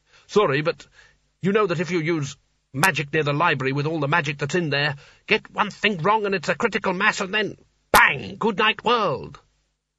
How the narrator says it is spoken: Sconner growled

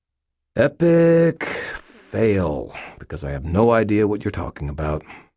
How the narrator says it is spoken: said wearily

